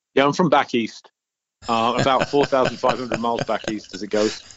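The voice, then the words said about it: British accent. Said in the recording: “that's not a Colorado accent ... The motherland, Great Britain, UK”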